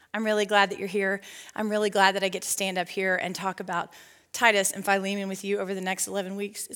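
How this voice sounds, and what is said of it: Out of breath speaking. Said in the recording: “I'm legit out of breath.”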